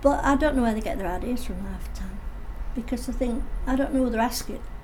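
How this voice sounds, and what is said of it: Hull English accent. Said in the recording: “You're from Hull, aren't you? How do you know? It's your accent. But I've got an accent. Yes, you have.”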